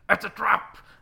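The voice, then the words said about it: Imitates a film character's voice. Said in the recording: “That was an awful impression.”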